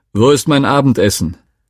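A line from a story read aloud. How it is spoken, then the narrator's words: Father calling. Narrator (German): rief mein Vater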